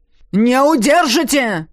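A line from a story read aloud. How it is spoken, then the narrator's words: Man shouting furiously. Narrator (Russian): свирепея прокричал мужчина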